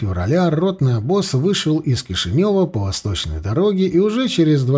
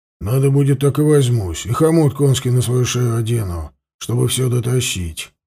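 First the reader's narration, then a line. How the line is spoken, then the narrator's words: Sullen grumbling. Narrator (Russian): буркнул, насупившись, Пластун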